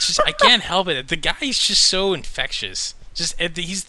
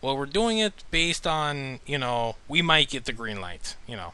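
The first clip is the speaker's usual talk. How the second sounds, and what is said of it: Imitates another person's voice, slight accent. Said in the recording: “my Del Toro impersonation again ... did I hear a slight accent start?”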